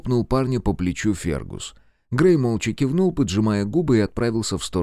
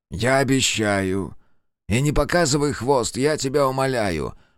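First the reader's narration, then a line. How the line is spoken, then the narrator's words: Grumbled. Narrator (Russian): проворчал Монгомери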